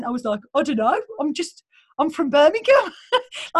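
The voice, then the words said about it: Birmingham English accent. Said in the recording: “in my Birmingham accent”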